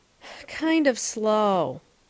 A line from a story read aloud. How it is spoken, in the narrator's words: said Davy with a sigh